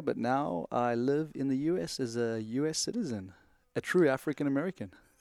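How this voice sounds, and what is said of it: South African accent. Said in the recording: “you pick up the accent, and that originates from the motherland. South Africa is where I was born and raised, partly between there and Tanzania.”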